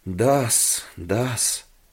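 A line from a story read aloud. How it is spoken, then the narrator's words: Mumbling. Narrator (Russian): Хуан только бормотал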